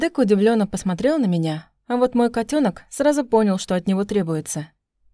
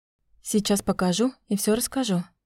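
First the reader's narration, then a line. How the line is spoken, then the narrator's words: Whispered reply. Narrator (Russian): шепотом ответила я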